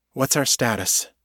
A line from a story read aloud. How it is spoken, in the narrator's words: she asked, her voice steady now